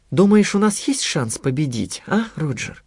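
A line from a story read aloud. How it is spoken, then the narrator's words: Thoughtful question. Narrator (Russian): спросила Анита задумчиво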